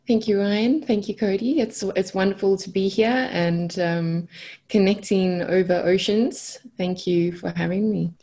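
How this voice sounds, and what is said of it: South African accent. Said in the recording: “I have a special spot in my heart for South Africa, and like you said, that accent is pretty cool ... introduce our listeners to that accent ... Have we over flattered your accent?”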